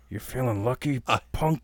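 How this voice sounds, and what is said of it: Clint Eastwood impression. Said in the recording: “I love doing voices ... Clint Eastwood”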